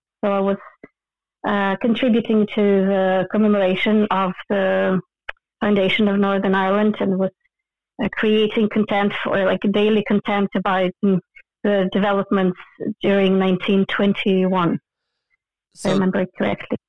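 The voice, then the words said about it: Ukrainian accent with Belfast tinge. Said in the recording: “your strange, curious Ukrainian stroke Belfast accent”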